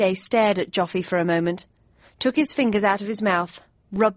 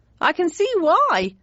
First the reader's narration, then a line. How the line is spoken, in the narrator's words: exclaimed Joffy, still staring incredulously